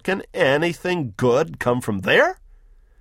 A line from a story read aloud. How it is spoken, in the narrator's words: snorts Nathanael